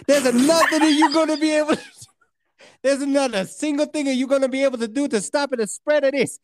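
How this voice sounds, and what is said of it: Put-on Italian accent. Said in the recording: “I got to nail the accent. ... It's gonna be oh. Italian.”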